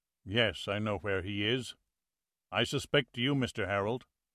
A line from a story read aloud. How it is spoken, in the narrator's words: Wolf said quietly